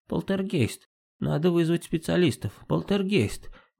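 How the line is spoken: Muttering neighbor. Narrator (Russian): бормотала соседка

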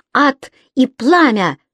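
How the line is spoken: Exclamation. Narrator (Russian): воскликнула она

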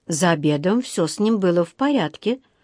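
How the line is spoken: Plain. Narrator (Russian): сказала миссис Браун

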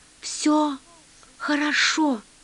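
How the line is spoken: Whispering. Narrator (Russian): шепнул

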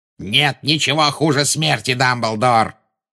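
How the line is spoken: Growling. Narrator (Russian): прорычал Волан-де-Морт

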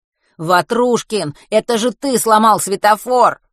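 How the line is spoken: Shouting into ear. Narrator (Russian): прокричал Матвей Вене в ухо

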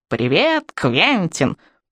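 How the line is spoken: Squeaky parrot imitation. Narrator (Russian): проскрипела я, копируя попугая

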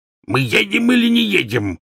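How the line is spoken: Barked. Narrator (Russian): рявкнул дядя Вернон

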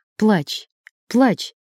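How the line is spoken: Quiet. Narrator (Russian): тихо сказал он

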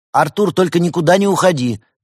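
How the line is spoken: Shouting across distance. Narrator (Russian): Денис прокричал в сторону беседки

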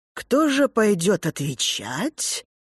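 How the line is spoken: Intriguing tone. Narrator (Russian): говорит она интригующим тоном

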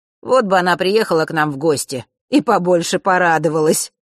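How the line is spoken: Wry snort. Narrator (Russian): хмыкнул Данила

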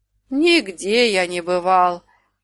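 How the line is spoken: Even more sorrowful sigh. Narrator (Russian): еще горестней вздохнул Людушка

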